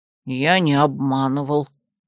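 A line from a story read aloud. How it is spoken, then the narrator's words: Demon grumbling. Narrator (Russian): проворчал демон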